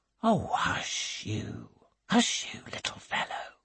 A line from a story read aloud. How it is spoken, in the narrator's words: whispers Miss Crawford